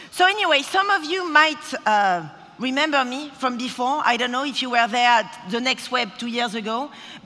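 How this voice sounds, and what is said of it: Strong foreign accent. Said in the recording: “this accent is just so strong. I mean, it's unbelievable... it's still up and strong, and it never goes”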